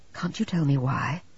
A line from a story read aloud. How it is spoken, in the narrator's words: he said very gently